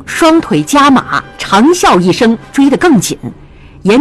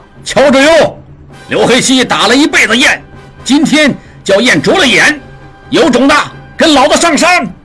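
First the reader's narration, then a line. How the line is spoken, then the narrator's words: Calm shout. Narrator (Chinese): 刘黑七……毫不慌张，喊道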